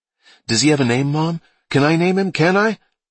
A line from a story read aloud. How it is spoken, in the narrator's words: Brian spoke excitedly